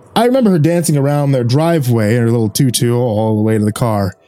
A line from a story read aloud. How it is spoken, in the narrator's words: said with a slight chuckle as he reminisced